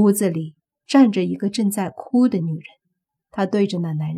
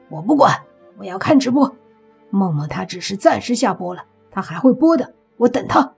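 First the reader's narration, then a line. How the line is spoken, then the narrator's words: Angry man. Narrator (Chinese): 一个男的愤怒的说道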